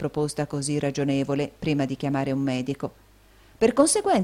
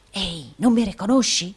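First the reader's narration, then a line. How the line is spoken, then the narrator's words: Whispered. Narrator (Italian): bisbigliò il provinciale del Yorkshire al giovane sbalordito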